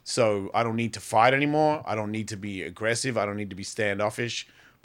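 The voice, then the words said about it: Australian accent. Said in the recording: “it's like my accent. I haven't lived in Australia for 30 years. Why do I sound like this? Because that's where I grew up.”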